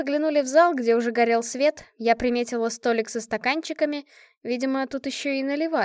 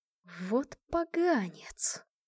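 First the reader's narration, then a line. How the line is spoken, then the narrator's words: Barely audible, through teeth. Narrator (Russian): процедила я еле слышно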